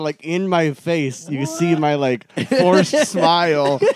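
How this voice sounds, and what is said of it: Usual voice. Nothing is said of it.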